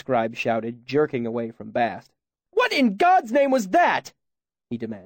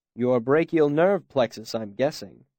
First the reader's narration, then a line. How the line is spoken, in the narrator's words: Kvothe said dryly